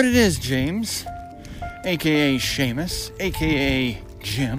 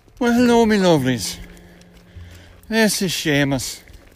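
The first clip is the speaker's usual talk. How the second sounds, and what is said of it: Fake Irish brogue. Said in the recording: “that's enough of the phony Irish brogue”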